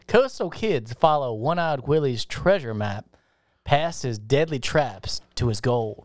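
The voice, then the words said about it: Put-on accent like a film detective. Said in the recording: “What is that fucking accent? ... You sound like Benoit Blanc.”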